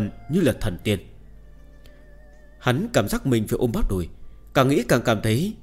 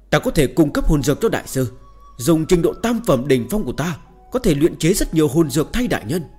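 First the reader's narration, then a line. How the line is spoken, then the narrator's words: Sudden loud shout. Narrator (Vietnamese): Chu Nhất Tình lập tức hét lớn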